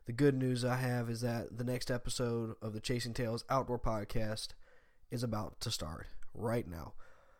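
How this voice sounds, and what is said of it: Raspy voice. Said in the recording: “I'm a little raspy right now. My allergies are getting the best of me”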